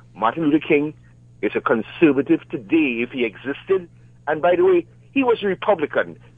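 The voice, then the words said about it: Caribbean Trinidadian accent. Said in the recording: “I hear your accent ... You're from Jamaica, are you? ... In Caribbean, Trinidad.”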